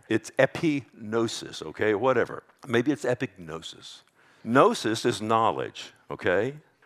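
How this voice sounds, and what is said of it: Texas accent. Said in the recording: “I'm probably asked with a Texas accent.”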